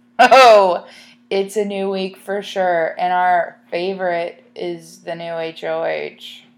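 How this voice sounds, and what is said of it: Sarcastic tone. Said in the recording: “If you can't tell, I'm being sarcastic.”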